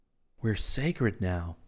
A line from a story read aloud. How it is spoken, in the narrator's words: Rick whispered